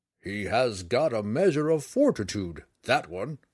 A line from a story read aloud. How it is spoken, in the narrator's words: the portly friar chuckled, fearing that he had spoken too loudly